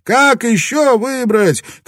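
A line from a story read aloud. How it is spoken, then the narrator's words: Shouted. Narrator (Russian): крикнул кто-то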